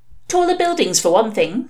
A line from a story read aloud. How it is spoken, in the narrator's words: said Sister Mary, desperately